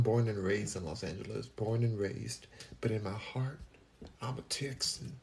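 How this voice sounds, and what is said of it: Usual voice. Nothing is said of it.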